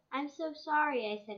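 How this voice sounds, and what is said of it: Tiny small voice. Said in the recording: “in a tiny voice.”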